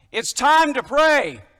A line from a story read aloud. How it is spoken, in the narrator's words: her husband, who's been playing with the boys after he's gotten home from work, yells out